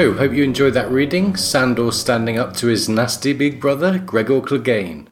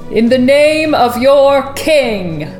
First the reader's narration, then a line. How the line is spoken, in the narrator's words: he boomed